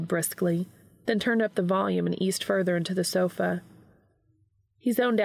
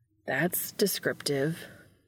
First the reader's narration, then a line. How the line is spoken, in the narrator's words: Sam muttered derisively